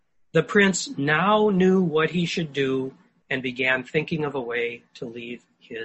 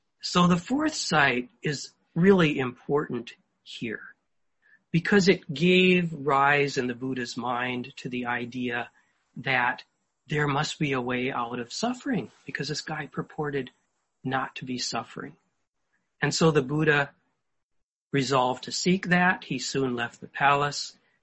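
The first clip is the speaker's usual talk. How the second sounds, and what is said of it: Quiet, soft speaking voice. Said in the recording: “There, that's quieter. ... I can talk in my quiet voice.”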